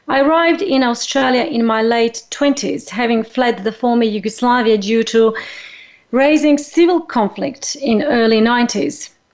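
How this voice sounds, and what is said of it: Non-native English accent. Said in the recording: “you can sense my accent by now, and you might wonder where I originally came from”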